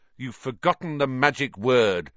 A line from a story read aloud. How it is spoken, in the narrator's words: said Harry irritably